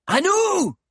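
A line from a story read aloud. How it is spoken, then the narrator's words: Sudden shout from behind. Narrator (French): cria soudain une voix derrière lui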